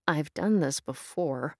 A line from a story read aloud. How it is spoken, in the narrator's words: Kim grumbled